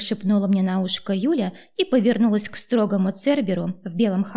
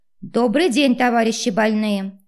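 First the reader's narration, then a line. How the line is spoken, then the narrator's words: Loud bark. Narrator (Russian): громко гаркнула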